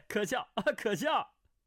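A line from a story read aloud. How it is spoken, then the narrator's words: Laughing. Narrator (Chinese): 段誉笑道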